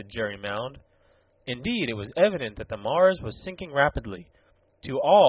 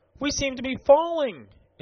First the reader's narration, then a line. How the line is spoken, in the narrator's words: exclaimed Lieutenant Marbury